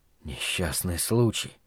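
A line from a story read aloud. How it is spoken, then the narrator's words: Near whisper. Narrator (Russian): повторил Стью чуть ли не шепотом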